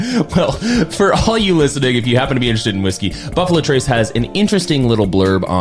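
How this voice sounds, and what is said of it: Usual voice. Nothing is said of it.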